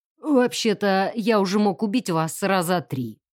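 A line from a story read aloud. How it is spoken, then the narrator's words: Grumbling from the floor. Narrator (Russian): проворчали с пола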